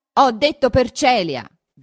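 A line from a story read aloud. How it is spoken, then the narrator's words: Shouted in his face. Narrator (Italian): gridò questo sul viso di Renzo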